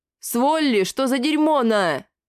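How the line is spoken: Creature's roar. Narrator (Russian): Взревела гемора

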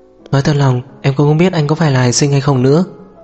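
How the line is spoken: Sighing. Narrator (Vietnamese): Tố Diệp thở dài

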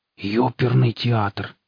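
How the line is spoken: Breathless exclamation. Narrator (Russian): выдохнул сталкер

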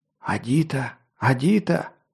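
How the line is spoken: Whispered. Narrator (Russian): шептал Харт

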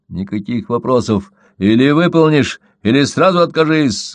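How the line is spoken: Barked order. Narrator (Russian): гаркнул Крамер

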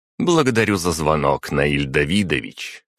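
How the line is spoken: Triumphant summing up. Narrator (Russian): торжествующим тоном резюмировала Агата

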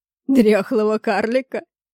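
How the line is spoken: Rough bass guffaw. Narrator (Russian): расхохотался грубым басом мужчина

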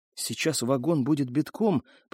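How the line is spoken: Whisper. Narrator (Russian): прошептала Элина

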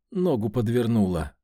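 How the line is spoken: Gloomy admission. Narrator (Russian): мрачно призналась Ксения

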